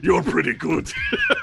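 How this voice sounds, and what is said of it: Heavy put-on German accent. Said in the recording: “with a heavy German accent.”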